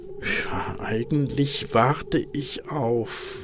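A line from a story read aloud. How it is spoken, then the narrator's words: Plain. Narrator (German): sagte er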